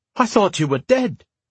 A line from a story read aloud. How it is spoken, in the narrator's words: the woman, Fay, exclaimed